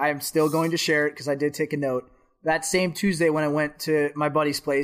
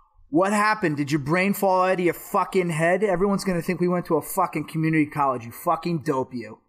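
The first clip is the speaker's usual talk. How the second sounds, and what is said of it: Thick New York accent. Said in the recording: “imagine this is in a very thick New York accent.”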